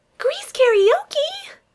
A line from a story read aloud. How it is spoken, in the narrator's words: Kelly squeals